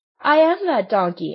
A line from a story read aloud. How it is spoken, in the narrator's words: answered the marionette, laughing